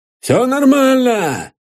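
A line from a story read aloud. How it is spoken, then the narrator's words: Officer's hoarse rasp. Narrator (Russian): прохрипел войсковой старшина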